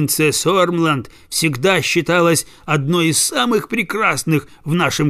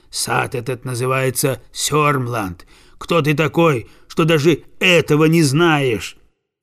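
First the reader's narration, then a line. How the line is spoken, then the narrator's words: Gruff rough reply. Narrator (Russian): Садовник грубым голосом отвечает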